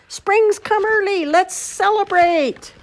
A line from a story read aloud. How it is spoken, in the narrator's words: He yelled